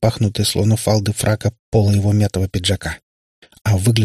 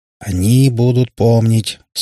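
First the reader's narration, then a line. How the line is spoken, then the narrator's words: Through gritted teeth. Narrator (Russian): сквозь зубы процедил Катипап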